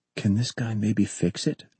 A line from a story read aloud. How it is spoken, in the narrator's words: John whispered